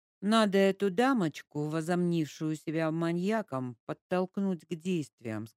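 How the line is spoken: Plain. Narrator (Russian): сказал Игорь

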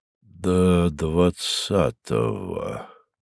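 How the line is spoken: Slow repetition. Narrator (Russian): медленно повторил он

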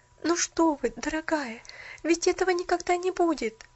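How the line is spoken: Exclaimed. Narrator (Russian): воскликнула Поллианна, совершенно изменив свое поведение

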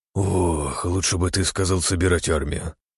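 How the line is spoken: Father's sigh. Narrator (Russian): вздохнул отец

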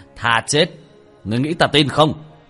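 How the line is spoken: Loud laugh. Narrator (Vietnamese): Thần tôn cười lớn một tiếng

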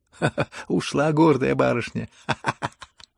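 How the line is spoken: Hysterical laughter. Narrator (Russian): Смеялась она в истерике

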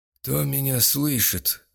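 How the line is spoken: Hoarse croak. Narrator (Russian): прохрипел он

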